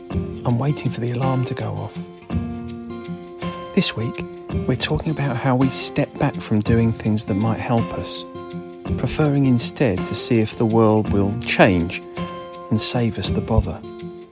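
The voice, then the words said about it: Whispering. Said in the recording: “I'm whispering because I'm in bed”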